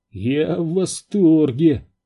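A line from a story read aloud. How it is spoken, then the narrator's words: Groaning. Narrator (Russian): простонал Зеро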